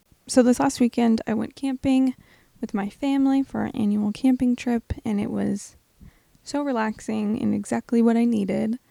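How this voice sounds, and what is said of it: Rough, slightly hoarse voice. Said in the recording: “My voice is a little rough this week”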